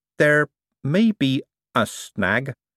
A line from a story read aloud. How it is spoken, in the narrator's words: said Adora Bell slowly